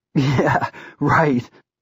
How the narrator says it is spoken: Lee laughed tearfully

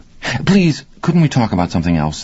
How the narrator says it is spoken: the young writer's wife asked, a little nervously

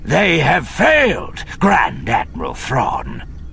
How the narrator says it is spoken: Sabaoth snarled at him

